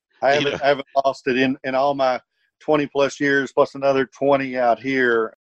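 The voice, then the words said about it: Slight Virginia twang. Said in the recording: “I love the accent ... I still have a little Virginia twang in there.”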